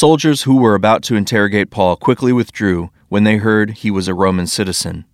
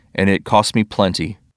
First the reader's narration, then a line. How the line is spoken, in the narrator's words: the commander muttered